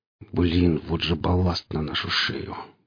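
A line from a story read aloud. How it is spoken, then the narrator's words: Muttering. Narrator (Russian): пробурчал Гриф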